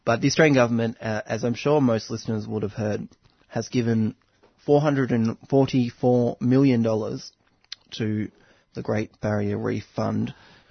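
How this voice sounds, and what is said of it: Congested voice from a cold. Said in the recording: “I've got a little bit of a cold”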